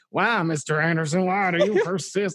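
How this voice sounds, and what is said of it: Put-on southern accent. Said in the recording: “he gets like a southern accent there”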